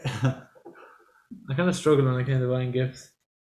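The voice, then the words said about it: Sounds depressed and flat. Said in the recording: “Why do you sound so depressed?”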